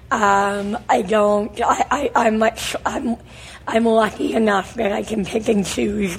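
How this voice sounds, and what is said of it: Hoarse, failing voice. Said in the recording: “Listen often, to my voice... I know you're losing... I'm losing my voice.”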